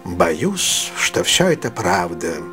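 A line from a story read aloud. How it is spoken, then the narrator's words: Old man, sad. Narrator (Russian): грустно сказал старый джентльмен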